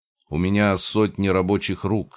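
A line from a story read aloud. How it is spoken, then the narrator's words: Calm. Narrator (Russian): спокойно сообщил я Скрежету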